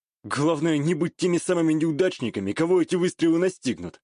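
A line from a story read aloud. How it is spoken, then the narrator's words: Wry snort. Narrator (Russian): хмыкнул я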